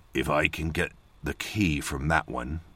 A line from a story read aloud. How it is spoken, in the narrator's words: he said